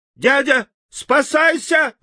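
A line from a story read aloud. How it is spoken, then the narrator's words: Girl's shrill squeal. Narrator (Russian): взвизгнула девочка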